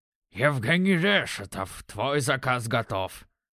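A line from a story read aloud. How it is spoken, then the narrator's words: Nasal low voice. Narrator (Russian): Прогундосил низким голосом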